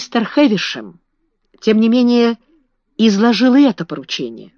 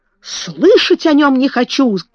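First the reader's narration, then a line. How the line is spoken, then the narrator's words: Breathless furious shouting. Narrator (Russian): кричал граф, задыхаясь от гнева и возбуждения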